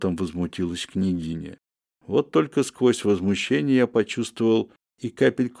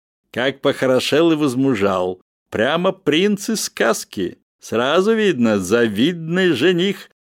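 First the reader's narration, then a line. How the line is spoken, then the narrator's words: Guffawing. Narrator (Russian): с хохотом произнесла баронесса Раль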